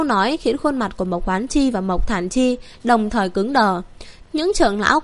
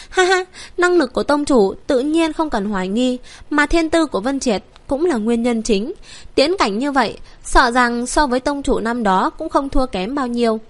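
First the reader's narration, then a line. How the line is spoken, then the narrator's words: Elder's sigh. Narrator (Vietnamese): Tam trưởng lão Mộc Thản Chi cũng thở dài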